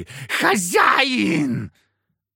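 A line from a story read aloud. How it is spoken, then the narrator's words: Shrieking. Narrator (Russian): от ее визга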